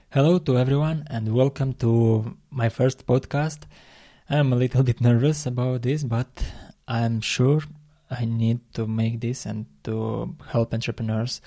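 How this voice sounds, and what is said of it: Non-native English accent. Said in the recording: “As you hear me, you see my accent and my English also.”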